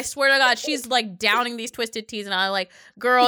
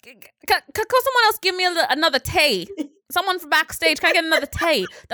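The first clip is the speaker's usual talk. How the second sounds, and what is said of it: Bad put-on Australian accent. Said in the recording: “That's a really bad accent”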